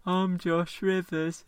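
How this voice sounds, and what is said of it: Imitates another person's voice. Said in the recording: “Uncanny impression. ... That's a very good impression.”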